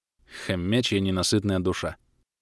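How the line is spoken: Tired snort. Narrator (Russian): фыркнул я, устало

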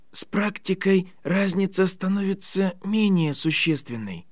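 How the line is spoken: Exhausted boy's whisper. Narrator (Russian): прошептал бледный, изможденный мальчик

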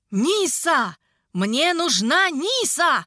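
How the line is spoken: Shouting. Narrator (Russian): орал некромант

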